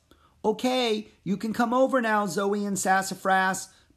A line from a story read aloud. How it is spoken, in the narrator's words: Pip hollered from a few feet away